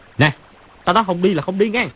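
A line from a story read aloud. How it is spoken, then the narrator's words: Loud shout. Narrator (Vietnamese): Chu Bá Thông quát to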